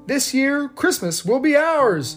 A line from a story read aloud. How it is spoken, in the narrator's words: he shouted